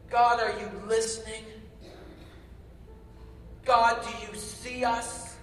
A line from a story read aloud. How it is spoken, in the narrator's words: The tears they cried out